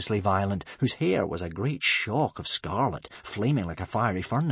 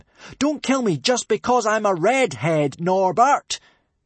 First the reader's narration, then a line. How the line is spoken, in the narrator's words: shouted Hiccup as loud as he could